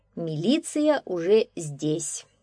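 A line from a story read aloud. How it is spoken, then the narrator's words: Calm policeman. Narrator (Russian): спокойно сказал милиционер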